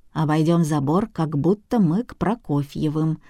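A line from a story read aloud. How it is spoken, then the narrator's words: Calm. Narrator (Russian): спокойно сказала Женя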